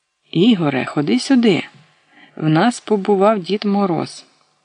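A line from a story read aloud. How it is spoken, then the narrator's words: Joyful excited child. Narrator (Ukrainian): Наталочка радісно застрибала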